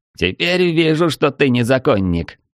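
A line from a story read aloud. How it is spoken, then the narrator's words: Laughing. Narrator (Russian): рассмеялся Трид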